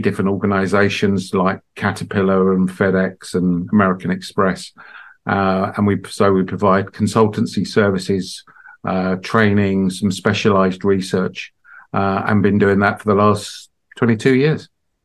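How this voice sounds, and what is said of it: British accent. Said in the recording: “I'm guessing from the accent that you're not from Tennessee. So did you get your corporate start back in the UK?”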